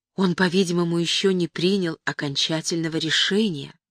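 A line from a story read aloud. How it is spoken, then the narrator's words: Whispered. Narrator (Russian): шепнул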